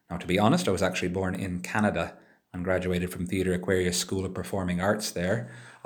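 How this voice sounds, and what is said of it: North American English accent. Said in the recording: “I'm available for productions requiring an American accent... I suppose an American accent is the appropriate category for me”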